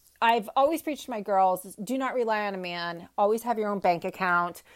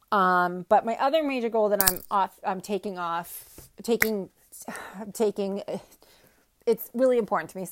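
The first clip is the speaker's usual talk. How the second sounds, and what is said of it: Stuttering, repeating words. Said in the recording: “I'm stuttering today”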